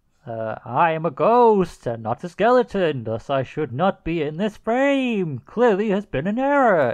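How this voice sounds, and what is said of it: Put-on ghost character voice. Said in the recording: “read this in your best Manchester ghost voice ... just do a regular ghost voice”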